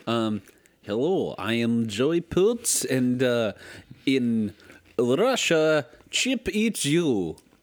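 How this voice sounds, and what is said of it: Convincing put-on Russian accent. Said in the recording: “Can you do more Russian? ... How did I not know you had such a killer Russian accent?”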